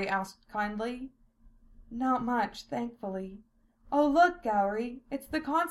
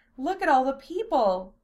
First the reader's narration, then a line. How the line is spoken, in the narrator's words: Silphiel squealed